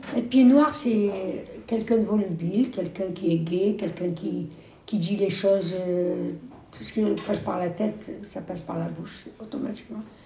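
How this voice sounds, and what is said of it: Pied-noir French accent. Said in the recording (French): “on dit qu'il y a un accent pied noir ... vous n'êtes pas pied noir, parce que vous avez l'accent.”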